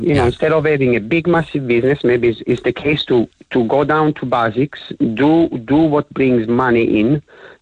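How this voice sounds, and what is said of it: Foreign-accented English. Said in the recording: “I love your accent.”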